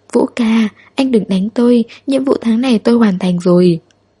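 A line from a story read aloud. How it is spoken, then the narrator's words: Trembling pleading. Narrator (Vietnamese): Hứa Huệ Tranh run như cầy sấy, van xin nói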